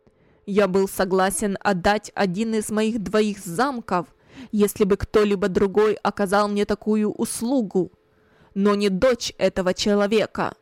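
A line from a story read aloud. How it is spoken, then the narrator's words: Loud, spiteful voice. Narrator (Russian): громко, злобным голосом сказал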